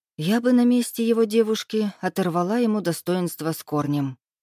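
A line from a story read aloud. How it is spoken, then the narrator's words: Sighed. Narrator (Russian): вздохнула Муза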